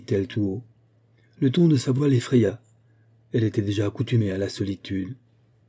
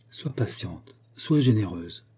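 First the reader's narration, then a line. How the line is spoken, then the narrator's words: Murmuring. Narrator (French): murmura-t-elle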